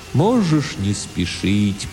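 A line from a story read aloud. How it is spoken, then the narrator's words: Strange sad distant voice. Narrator (Russian): произнес Тимулти очень странным, грустным, далеким, философическим голосом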